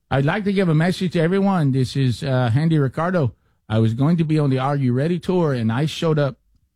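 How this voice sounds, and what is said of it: Agitated put-on Boston accent. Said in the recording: “a very agitated Boston accent?”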